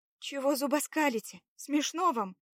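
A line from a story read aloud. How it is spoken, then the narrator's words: Displeased remark. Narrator (Russian): заметила недовольно Лада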